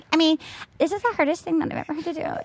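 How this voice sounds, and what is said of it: Childish girl voice. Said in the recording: “do a childish girl voice very ... Well?”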